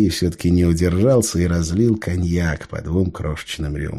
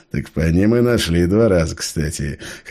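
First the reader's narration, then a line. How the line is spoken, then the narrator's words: Short chuckle. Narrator (Russian): хохотнул Сергей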